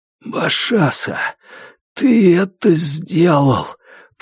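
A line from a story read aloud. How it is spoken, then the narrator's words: Hoarse. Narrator (Russian): прохрипел Кай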